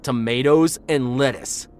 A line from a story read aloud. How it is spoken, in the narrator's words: he shouted